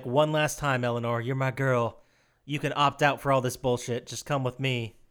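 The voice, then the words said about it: Slight put-on Southern accent. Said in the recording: “I like your slight southern accent you throw in there.”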